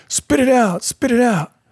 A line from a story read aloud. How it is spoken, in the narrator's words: Thinking I had swallowed some crack, kept screaming in my face